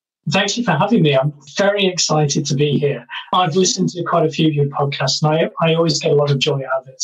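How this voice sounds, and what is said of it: British accent. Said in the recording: “You're coming to us, joining us for this episode from the UK. Obviously, our listeners can hear the accent.”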